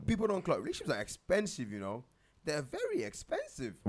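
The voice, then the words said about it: Exaggerated, cartoonish teacher-like voice. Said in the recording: “Why do you keep changing your voice?... You watch too much cartoon... What the hell was that voice?... Like, you just change your voice... are you a primary school teacher?”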